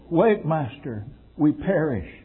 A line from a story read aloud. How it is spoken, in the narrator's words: the cries of the frightened disciples in a storm when they said